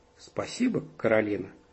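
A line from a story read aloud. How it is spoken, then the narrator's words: Cold. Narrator (Russian): холодно ответила другая мама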